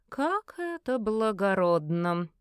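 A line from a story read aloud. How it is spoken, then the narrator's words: Drawled. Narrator (Russian): протянула фаворитка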